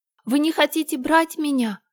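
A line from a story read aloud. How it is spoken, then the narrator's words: Exclaimed. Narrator (Russian): воскликнула она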